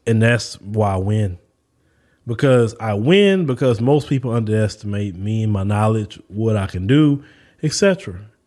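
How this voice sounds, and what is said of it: Southern American accent. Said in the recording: “I'm from the South ... my Southern accent ... he sounds dumb”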